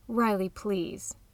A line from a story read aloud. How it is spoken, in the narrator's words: Talia spoke softly